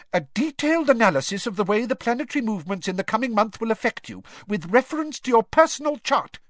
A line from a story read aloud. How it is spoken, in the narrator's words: she snapped, sounding much more like Professor McGonagall than her usual airy-fairy self